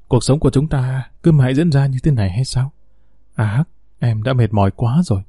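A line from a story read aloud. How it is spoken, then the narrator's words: Soft, sad. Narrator (Vietnamese): Madame Lim thoáng buồn, khẽ nói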